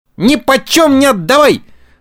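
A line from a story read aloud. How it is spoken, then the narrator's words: Loud yell. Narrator (Russian): завопил Буратино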